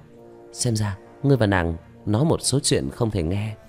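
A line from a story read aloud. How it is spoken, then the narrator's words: Smiling. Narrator (Vietnamese): Vương Khả Khả mỉm cười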